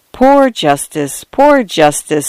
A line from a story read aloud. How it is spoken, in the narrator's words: sighed my brother